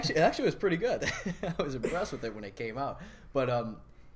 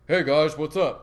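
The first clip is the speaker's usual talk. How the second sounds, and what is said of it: Imitates another person's voice. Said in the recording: “I like your Ferrell impersonation.”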